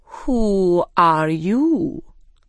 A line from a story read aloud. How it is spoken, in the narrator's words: it said slowly